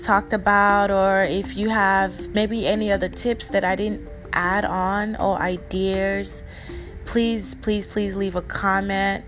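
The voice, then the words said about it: Speaks with a noticeable accent. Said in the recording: “they do not understand my accent ... My accent is not that bad.”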